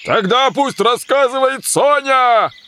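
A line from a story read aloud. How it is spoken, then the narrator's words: Two voices shouting. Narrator (Russian): Закричали болванщик и заяц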